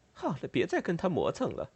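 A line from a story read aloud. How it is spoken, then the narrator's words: Muttering. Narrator (Chinese): 卡捷琳娜·利沃夫娜咕哝了一句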